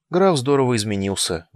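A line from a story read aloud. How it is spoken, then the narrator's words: Sad reply. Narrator (Russian): грустно ответила он Стея Сандью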